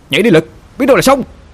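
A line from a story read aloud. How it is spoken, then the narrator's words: Shouting urgently. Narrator (Vietnamese): Một người bạn cá thân với Lực hét lên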